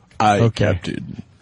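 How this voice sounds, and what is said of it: Deep imitated character voice. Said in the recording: “You're doing a good Sulu. ... I can't get as deep as you.”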